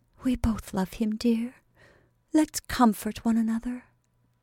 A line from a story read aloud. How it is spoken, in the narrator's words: Belle turned away her wrath by a softer answer, as she whispered with a tender choke in her voice